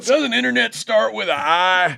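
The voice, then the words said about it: Drunk-sounding character voice imitation. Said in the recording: “That's pretty good. That's a good imitation. That sounds like a guy's drinking moonshine.”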